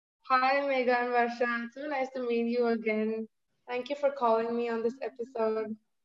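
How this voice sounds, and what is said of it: Indian-accented English. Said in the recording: “all the way from India ... I love your accent, by the way.”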